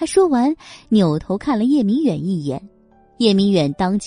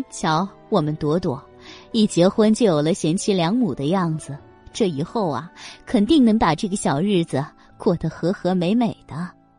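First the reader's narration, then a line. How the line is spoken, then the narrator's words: Laughing. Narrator (Chinese): 梁芬笑道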